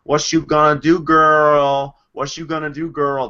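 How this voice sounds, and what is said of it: Mocking impression of stereotyped speech. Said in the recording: “that was my impersonation of Aaron impersonating a black person ... That's what she thinks black people talk like.”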